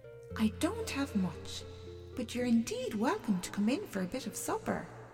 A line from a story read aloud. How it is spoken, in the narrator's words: said the old lady kindly